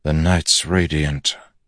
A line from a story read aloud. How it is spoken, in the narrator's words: Kaladin said softly